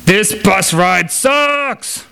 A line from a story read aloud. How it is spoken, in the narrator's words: yelled loudly enough for everybody aboard to hear